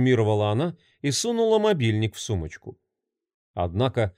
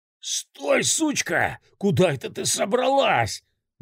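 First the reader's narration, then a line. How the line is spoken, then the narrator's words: Roaring in strange voice. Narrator (Russian): взревел не своим голосом Витек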